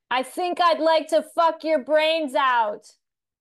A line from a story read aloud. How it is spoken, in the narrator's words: He, because it's a really loud show, and he yells towards her head